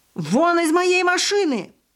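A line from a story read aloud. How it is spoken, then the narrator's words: Man yelling from above. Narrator (Russian): орал какой-то мужчина сверху, похоже, из распахнутого окна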